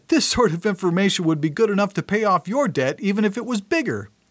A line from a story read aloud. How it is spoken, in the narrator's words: laughed out loud and said